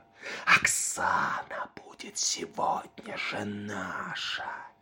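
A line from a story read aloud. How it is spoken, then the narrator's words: Whispered. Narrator (Russian): Шепнул он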